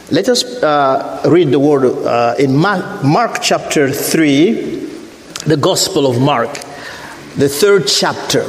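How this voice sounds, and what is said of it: Non-native accent in English. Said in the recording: “Dad, you sound funny ... When you are already old, you learn a new language. You put it on top of the old one, and it sounds a little strange ... the accent”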